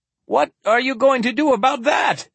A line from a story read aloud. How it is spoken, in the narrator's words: Tangent cried